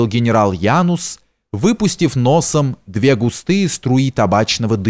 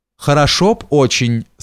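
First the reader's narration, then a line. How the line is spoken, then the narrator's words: Plain. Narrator (Russian): сказал барон Остен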